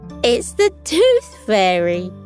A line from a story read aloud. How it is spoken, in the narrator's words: Sunny chuckled and barked